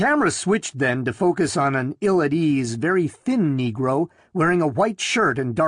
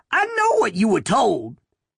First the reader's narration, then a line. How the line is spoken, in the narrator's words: Haskins said excitedly, his voice rising to a falsetto